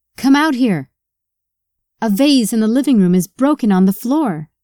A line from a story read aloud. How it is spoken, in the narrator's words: Jenny shouted